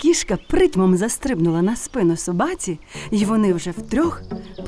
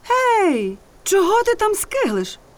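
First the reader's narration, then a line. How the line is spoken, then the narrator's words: Donkey shouting. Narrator (Ukrainian): вигукнув осел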